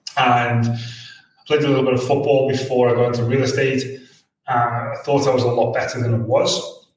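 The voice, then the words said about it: Liverpool English accent. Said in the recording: “I'm from Liverpool, which you can pick up from the accent.”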